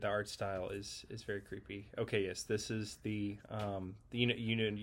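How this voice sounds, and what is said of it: Usual voice. Nothing is said of it.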